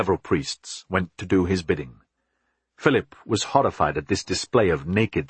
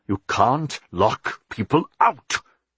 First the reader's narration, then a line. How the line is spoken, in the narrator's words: he shouted angrily